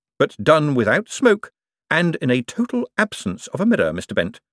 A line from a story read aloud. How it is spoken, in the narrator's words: said Moist cheerfully